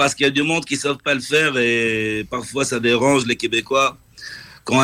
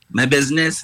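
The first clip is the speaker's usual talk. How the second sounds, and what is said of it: Québécois accent, well done. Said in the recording (French): “tu viens de le dire avec l'accent québécois ... tu le fais à merveille”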